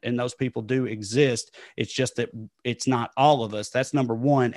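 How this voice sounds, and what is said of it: Southern US accent. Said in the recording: “when you hear my accent ... I'm not the only liberal white Southerner”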